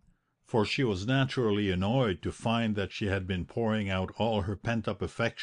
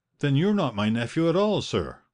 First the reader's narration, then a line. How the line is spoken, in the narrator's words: cried the aunt